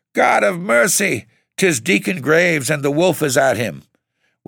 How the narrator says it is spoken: Then he cried out again

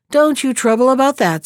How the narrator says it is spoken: said the king

